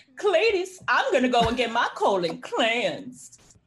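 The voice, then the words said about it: Eddie Murphy impression of mom character. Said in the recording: “her Eddie Murphy impression... he could do his mom and his grandma”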